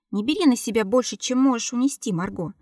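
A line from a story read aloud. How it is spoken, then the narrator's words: Sharp curt reply. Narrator (Russian): резко отрезал Иннатер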